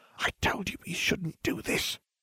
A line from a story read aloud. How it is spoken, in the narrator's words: Hermione hissed